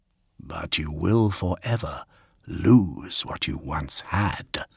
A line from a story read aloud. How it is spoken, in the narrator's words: whispered a voice in his mind